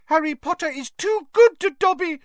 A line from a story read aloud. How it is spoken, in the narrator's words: he squeaked